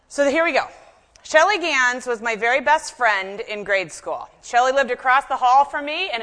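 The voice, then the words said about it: Nasal Chicago accent, fast speech. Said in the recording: “do a little bit of the nasal Chicago is what you'll hear a little more of ... the Chicago accent ... I speak quite quickly”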